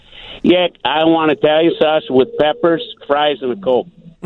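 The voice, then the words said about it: Chicago Berwyn accent. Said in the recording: “I like the Berwyn accent. That's pretty good.”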